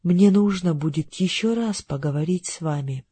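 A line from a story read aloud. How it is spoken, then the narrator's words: Plain. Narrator (Russian): сказал мистер Гарди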